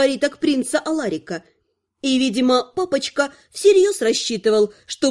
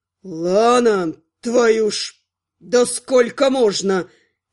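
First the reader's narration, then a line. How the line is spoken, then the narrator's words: Furious coughing howl. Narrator (Russian): кашляя, разъяренно взвыл магистр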